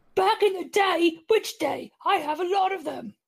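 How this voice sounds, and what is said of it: Imitates another person's voice. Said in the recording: “my best Terry Jones impression ... They were both pretty good.”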